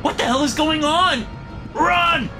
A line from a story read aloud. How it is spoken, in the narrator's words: I shout